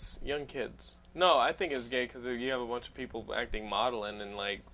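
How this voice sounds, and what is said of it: Usual voice. Nothing is said of it.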